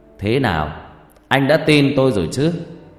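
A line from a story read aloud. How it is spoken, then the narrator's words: Laughing loudly, then speaking. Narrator (Vietnamese): Thầy Năm cười to rồi bảo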